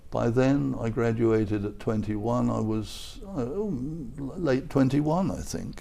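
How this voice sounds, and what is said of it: Mild southern English accent. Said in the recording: “I have an English accent. It hasn't changed very much. ... I think if anything, it's gotten milder ... Well, I was London, and southern England.”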